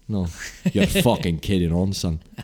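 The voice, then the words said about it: Put-on Scottish accent. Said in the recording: “your best Scottish accent?”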